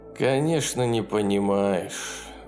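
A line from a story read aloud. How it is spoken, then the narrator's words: Sighing. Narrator (Russian): вздохнул Курвазье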